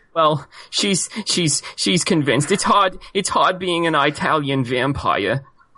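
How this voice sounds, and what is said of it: Sniveling New York accented character voice. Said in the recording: “Why does the Italian vampire sound like a sniveling Jewish man? ... That was a New York accent.”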